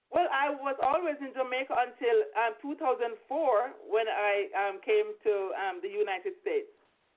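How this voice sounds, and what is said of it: Jamaican accent. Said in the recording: “your Jamaican accent”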